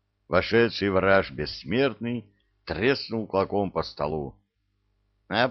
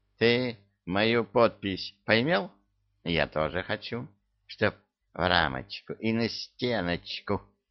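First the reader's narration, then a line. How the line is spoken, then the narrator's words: Peremptory declaration. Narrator (Russian): Непререкаемым тоном заявил Кощей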